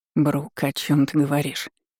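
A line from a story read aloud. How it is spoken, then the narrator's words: Exhausted breathy utterance. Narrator (Russian): Выдохнул он, эти слова лишили его последних сил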